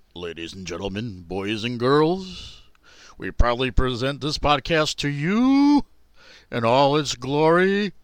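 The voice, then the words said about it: Announcer voice. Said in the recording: “channel my inner announcer voice”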